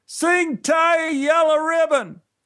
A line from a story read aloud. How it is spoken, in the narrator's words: someone in the audience yelled